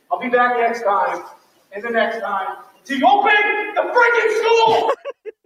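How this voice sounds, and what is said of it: Agitated yelling. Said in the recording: “he's yelling ... he gets progressively more excited ... from agitated to upset to pretty upset”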